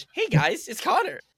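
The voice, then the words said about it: High-pitched disguised voice. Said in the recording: “I'm gonna do the voice modulator, but like high pitch.”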